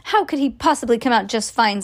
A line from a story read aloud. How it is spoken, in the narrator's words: snapped Mrs